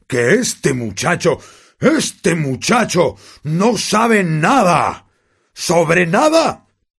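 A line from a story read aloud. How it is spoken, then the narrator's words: Roared. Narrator (Spanish): rugió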